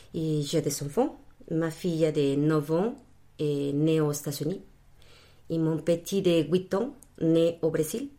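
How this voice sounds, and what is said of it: Spanish-speaker's accent in French. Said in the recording (French): “on va se régaler avec son accent ... hispanophone d'origine, et mon accent le dit”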